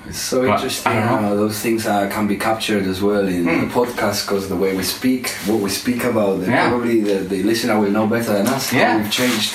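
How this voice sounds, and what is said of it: Spanish accent. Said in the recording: “My accent is still Spanish”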